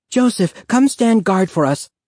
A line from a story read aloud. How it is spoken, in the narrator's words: Renata cried